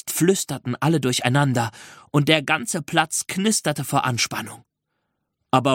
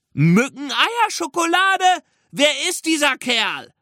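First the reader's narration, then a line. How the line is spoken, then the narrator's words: Call out. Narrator (German): rief ein anderer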